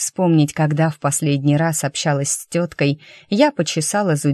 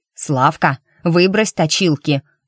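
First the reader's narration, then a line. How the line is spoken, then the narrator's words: Woman snapping. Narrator (Russian): огрызнулась тетка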